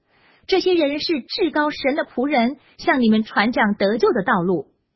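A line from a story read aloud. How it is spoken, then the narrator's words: Shouting. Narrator (Chinese): 她跟着保罗和我们喊叫说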